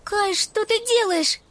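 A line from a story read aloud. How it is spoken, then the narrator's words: Girl's cry. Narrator (Russian): вскрикнула девочка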